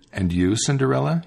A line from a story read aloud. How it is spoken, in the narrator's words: he asked